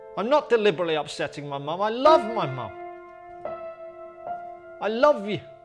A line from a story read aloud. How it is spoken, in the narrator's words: I just blurted out